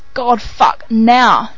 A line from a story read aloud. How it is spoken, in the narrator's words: Jared groans, his cock so hard he feels like he's going to explode any minute